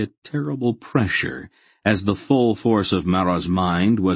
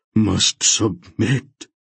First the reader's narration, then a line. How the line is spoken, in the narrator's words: he said hoarsely